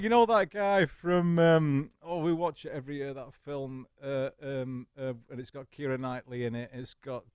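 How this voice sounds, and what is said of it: Northern English accent. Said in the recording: “you still have the dulcet tones of the North”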